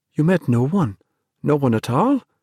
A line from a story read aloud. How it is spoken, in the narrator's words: Dennis asked anxiously